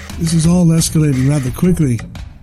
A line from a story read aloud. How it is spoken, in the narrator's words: the rabbi says to himself